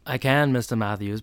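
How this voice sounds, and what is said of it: Imitates another person's accented voice. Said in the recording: “you have to say it with your accent.”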